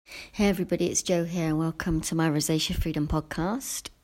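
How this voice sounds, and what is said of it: Deeper, just-woke-up voice. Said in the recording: “It's very early in the morning, so my voice might sound a bit deeper. I just got out of bed”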